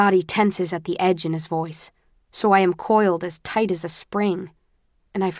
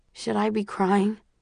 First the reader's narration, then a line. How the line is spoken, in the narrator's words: I ask, my voice muffled by his shirt